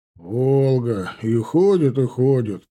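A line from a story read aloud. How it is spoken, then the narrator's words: Mutter. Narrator (Russian): пробурчал Антонов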